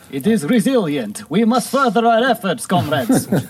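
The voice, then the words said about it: Put-on Russian accent. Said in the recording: “Now you're just Russian. ... I'm having trouble staying in the accent. I didn't study it very much.”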